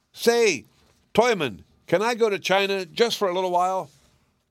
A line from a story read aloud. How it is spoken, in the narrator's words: shouted